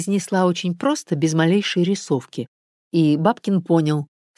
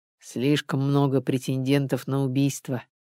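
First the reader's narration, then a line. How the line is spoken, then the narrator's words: Grumbling aloud. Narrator (Russian): проворчал Бабкин вслух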